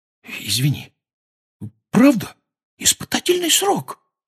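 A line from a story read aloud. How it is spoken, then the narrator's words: Whispered repeat. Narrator (Russian): повторил он шепотом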